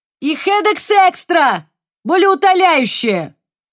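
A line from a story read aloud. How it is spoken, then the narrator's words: Shout. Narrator (Russian): крикнул он вслед Софии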